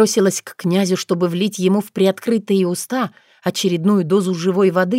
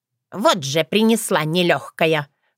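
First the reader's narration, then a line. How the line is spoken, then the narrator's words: Grumbling. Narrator (Russian): проворчала Воронесса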